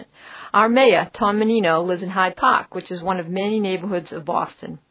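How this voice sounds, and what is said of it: Boston accent. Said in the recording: “I'm here to help you understand the Boston accent. Well, actually, here in my city, I don't have an accent.”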